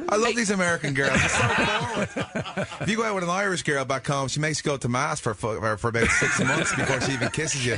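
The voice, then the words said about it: Irish brogue. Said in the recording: “Irish brogue is so hot”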